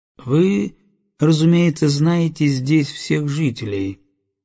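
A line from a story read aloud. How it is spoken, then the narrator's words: Calm. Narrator (Russian): спокойно заговорил Грей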